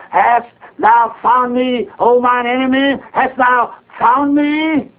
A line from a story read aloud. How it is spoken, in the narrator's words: he cowered before the prophet and cried aloud